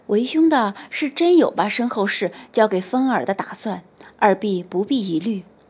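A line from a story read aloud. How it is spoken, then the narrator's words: Soft, after a pause. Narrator (Chinese): 刘备停顿了一下，轻声道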